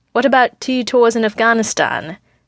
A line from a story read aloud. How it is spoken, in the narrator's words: Natasha asks dryly